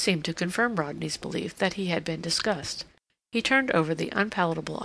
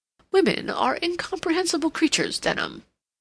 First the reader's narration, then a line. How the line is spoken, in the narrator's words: he then exclaimed